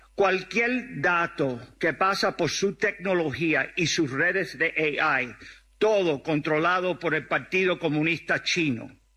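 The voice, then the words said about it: Cuban Spanish accent. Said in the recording (Spanish): “tiene un acento cubano ... Tiene el acento”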